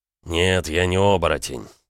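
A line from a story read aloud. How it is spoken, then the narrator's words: Through clenched teeth. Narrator (Russian): процедил Макеев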